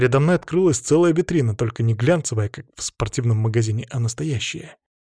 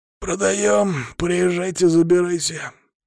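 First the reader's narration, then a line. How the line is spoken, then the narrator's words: Hoarse male voice. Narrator (Russian): ответил хриплый мужской голос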